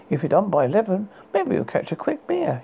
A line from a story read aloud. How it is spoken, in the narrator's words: he laughed